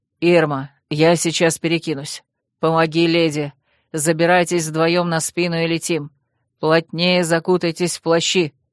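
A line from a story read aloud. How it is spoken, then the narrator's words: Curt commands. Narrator (Russian): отрывисто командовал дракон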